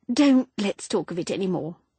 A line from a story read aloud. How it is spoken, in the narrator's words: sighed abruptly